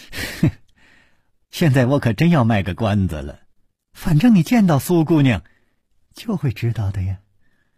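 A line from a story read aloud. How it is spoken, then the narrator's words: Laughing, teasing. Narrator (Chinese): 柳无眉却总是笑着说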